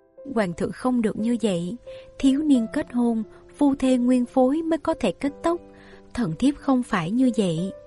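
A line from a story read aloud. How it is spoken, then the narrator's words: Astonished, tearful. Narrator (Vietnamese): Như Ý kinh ngạc, có nước mắt nhẹ nhàng tràn đầy đôi mắt, nàng lắc đầu nói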